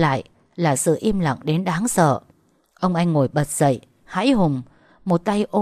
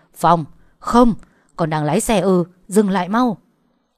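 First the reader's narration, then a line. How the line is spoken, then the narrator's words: Loud alarmed shout. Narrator (Vietnamese): Ông anh nghe thấy tiếng động chói tai qua điện thoại hét ầm lên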